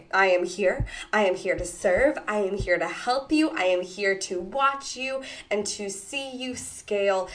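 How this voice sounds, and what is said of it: Voice still sounding a bit sick. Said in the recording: “Maybe you can hear it in my voice, but I'm actually just getting over another influx of sickness.”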